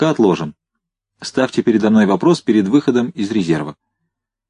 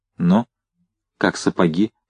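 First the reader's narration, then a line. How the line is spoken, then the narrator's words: Asking in undertone. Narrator (Russian): вполголоса спросил Новиков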